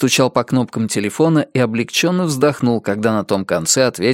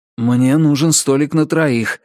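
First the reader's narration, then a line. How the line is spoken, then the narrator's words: Breathless exhale. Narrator (Russian): выдохнул Ричард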